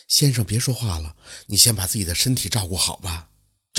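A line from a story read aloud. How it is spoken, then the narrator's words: Soft, gentle. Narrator (Chinese): 那少女 轻声地说道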